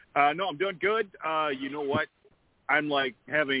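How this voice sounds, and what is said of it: Usual voice. Nothing is said of it.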